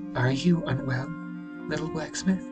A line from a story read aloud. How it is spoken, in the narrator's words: she said, and her voice was like honey to the young man's ears